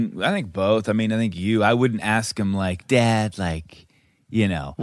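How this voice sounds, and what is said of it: Usual voice. Nothing is said of it.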